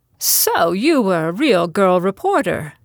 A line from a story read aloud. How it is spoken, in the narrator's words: Edwina exclaimed